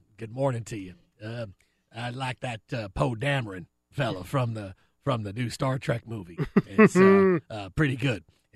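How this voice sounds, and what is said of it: Jerry Jones impression. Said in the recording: “With the Jerry Jones, well, it's more just it's volume ... when Jerry walks through that door, in your impression”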